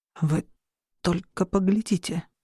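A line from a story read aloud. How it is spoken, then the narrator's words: Whisper. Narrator (Russian): прошептал кто-то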